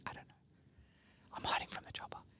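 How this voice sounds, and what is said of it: Whispering. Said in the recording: “I don't know why I'm whispering. ... Why are we whispering?”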